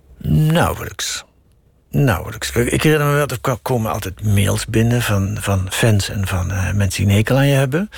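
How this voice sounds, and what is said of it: Southern Dutch accent. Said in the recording (Dutch): “nogal afwijkt van de doorsnee Radio 1-stem... vanwege dat zuidelijke, iets wat eh, zuigende, onverbloemde eh, accent”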